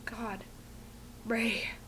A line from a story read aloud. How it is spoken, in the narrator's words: Fraser gasps